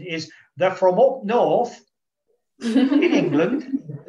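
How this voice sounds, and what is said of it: Weak put-on Northern English accent. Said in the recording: “with my best Northern English accent ... It's not very good. I've lost my accent.”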